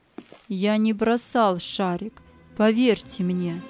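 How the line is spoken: Firm voice. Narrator (Russian): сказал твердым голосом

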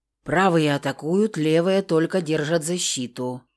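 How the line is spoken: Hoarse, catching breath. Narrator (Russian): прохрипело, успокаивая дыхание

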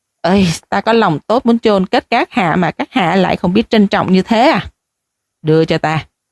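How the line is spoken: Muttered. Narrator (Vietnamese): lẩm bẩm nói

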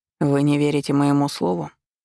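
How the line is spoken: Cold, hard. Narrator (Russian): Голос моего ариата звучал так холодно и жестко

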